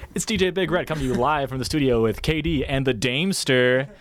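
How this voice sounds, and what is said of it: Over-the-top shock jock radio DJ voice. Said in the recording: “your shock jock impression”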